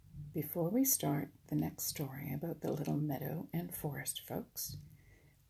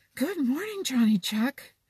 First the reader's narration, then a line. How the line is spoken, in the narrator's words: panted the first merry little breeze